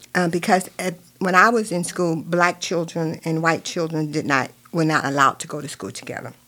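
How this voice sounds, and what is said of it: Virginia accent. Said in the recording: “if you can tell from from my accent, but I grew up in Virginia”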